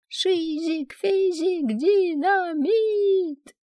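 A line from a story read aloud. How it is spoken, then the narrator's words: Sudden loud shout. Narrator (Russian): совершенно неожиданно для себя я громко кричу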